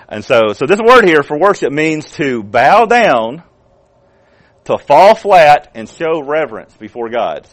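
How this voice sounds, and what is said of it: Southern American accent. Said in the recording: “my pronunciation of Hebrew, I have to let y'all know, is Southern Hebrew. I'm speaking Southern Hebrew... that's my Southern Hebrew pronunciation of it”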